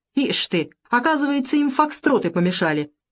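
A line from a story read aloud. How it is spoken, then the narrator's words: Cheerful shouting. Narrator (Russian): Якушев весело кричит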